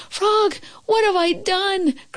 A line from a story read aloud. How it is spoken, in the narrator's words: cried Toad